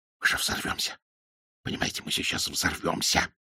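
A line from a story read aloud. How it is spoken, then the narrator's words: Dropping to a whisper. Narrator (Russian): Айсман перешел на шепот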